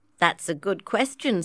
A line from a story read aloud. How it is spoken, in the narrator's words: said Emily